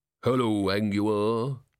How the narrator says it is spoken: it said in a deep, rolling voice

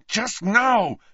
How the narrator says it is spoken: said Harry, who was refraining from yelling with enormous difficulty

